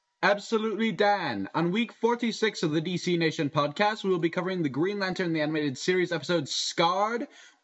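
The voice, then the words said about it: Announcer voice. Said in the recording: “can your best announcer voice”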